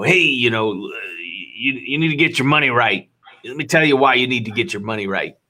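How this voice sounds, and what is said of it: Impression of Grant Cardone. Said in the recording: “Grant Cardone ... Good impersonation. That's really good.”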